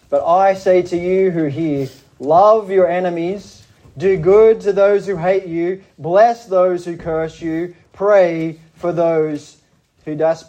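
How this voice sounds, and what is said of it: Australian accent. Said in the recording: “That's my Aussie accent coming in.”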